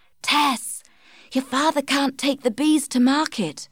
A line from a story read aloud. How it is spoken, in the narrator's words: whispered